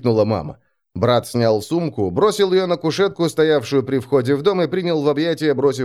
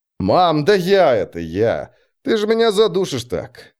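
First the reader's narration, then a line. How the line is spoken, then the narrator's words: Laughing. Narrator (Russian): Смеясь, сказал Марк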